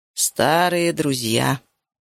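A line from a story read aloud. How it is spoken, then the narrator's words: Rough wheeze from behind. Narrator (Russian): просипел грубый голос позади нас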